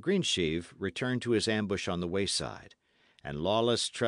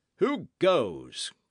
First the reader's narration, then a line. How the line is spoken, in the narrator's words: cried the man in command